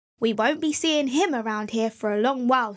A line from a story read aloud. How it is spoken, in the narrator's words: said the woodman